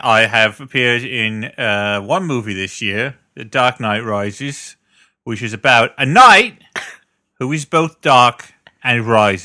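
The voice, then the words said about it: Michael Caine impression. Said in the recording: “look, it's Michael Caine, everybody ... none of us can do a James Caan impression ... everyone else we can't do impressions of”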